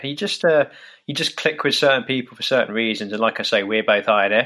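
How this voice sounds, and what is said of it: Slight English accent. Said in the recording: “you have a bit of an accent ... I'm kind of just outside of London in England”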